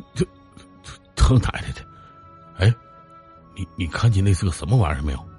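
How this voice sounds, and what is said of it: Quiet muttering, frightened stammer. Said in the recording (Chinese): “小声嘟囔着”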